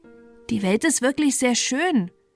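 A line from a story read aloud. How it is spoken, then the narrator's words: Small enthusiast calling. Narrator (German): rief ein kleiner Schwärmer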